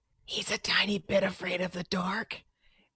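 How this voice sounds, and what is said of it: Whispering. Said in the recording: “Whispering.”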